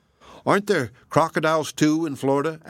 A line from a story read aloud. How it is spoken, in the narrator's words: asked Sumner